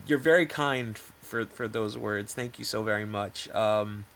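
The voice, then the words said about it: Choked up, emotional voice. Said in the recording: “I'm a little choked up.”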